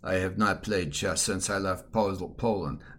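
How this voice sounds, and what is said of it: Imitates another person's accent, poorly. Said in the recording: “my bad impression of Begin's accent.”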